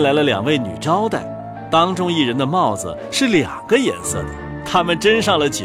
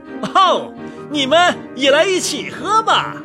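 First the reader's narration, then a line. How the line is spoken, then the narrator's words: Loud shouting guest. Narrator (Chinese): 有一位客人嚷了起来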